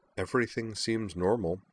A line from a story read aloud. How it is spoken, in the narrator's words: she replied, her voice as flat and uninterested-seeming